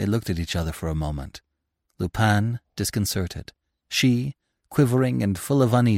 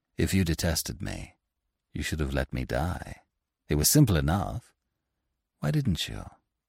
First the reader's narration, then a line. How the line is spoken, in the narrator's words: He said to her, gently